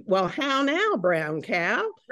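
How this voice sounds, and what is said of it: Childhood accent saying how now brown cow. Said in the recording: “the main thing was my accent. And I didn't think I talked funny, but she said I did.”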